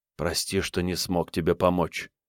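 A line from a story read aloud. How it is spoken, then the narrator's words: Quiet. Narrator (Russian): тихо сказал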